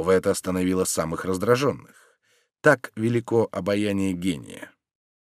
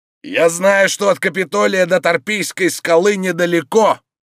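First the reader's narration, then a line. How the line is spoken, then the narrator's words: Shouting. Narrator (Russian): закричал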